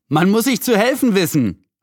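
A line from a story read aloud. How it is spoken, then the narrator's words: Calling out. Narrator (German): rief Julian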